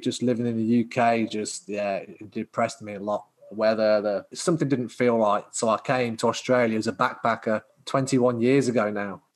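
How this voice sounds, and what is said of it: Speaks with a noticeable accent. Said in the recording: “You still kept your accent.”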